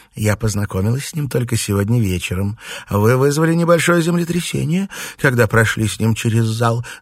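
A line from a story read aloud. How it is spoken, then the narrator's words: Laughing. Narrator (Russian): засмеялась Флёр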